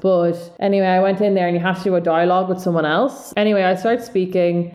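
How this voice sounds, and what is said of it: Strong South Dublin Irish accent. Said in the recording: “It's obviously aggressively South Dublin, which could give some people a headache, but I've been told before my voice is soothing”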